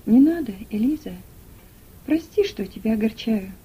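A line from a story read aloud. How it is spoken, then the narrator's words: Tender. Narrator (Russian): нежно сказал он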